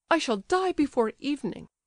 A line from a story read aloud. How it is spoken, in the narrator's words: she observed hysterically